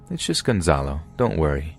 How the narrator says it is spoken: I would chuckle and say

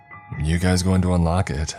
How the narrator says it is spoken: I asked

